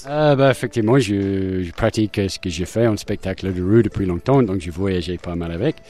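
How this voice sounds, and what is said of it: Slight English accent in French. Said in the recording (French): “vous avez un petit accent ... je suis anglais”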